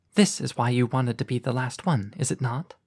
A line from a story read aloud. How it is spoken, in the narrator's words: murmured in his ear, just loud enough for him to hear